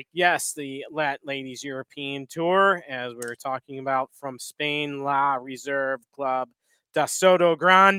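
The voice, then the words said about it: Heavy put-on accent on place names. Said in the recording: “That's a heck of an accent. ... Especially when you say it fast.”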